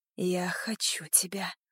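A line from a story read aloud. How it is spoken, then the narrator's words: Hoarse rasp. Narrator (Russian): прохрипела я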